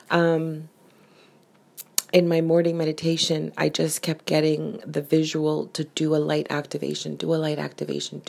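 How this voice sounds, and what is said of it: Raspy voice. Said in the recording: “my voice is so raspy.”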